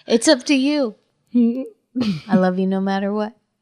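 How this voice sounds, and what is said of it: Imitates another person's voice. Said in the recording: “my impression of Xerxes”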